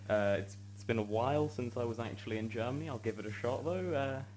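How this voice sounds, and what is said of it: Perfect British accent. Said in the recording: “you're talking to us in a perfectly British accent,”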